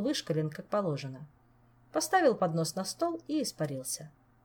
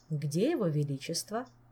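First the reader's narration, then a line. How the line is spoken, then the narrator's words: Calm question. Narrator (Russian): спокойно вопросил незнакомец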